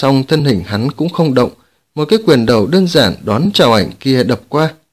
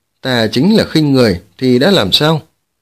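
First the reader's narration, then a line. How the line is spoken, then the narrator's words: Cold scornful laugh. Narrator (Vietnamese): Lăng Tiếu cười nhạt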